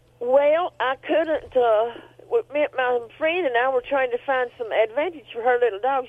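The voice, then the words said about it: Southern US accent. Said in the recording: “there you go with the accent ... talking the whole show with an accent like that. I just love those southern accents.”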